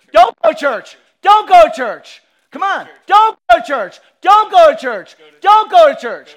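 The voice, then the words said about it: Loud, emphatic repeated speech. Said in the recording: “I say it louder”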